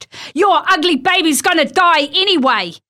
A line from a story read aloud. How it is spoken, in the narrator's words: she yelled